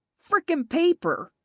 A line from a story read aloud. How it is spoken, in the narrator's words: she heard Nolan exclaim from the doorway